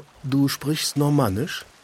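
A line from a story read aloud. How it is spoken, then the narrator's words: Murmured into ear. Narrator (German): Man raunte in mein haariges Segelohr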